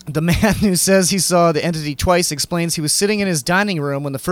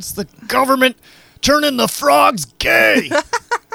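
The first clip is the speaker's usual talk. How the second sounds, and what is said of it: Strained, straining ranting impression. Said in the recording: “Wow, that was spot on. ... You got to say everything like you're trying to push poop out. ... That's the way to do an Alex Jones impression ... like you're trying to push poop out, but it just won't come.”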